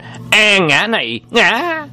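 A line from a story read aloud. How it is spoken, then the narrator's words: Gleeful cry. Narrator (Vietnamese): Đông Hải Sông Quái vỗ tay kêu lên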